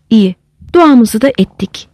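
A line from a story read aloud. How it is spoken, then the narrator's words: Plain. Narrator (Turkish): dedi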